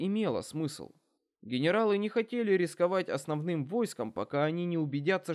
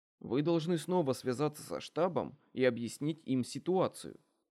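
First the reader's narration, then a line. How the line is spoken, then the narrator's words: Plain. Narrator (Russian): сказал Десс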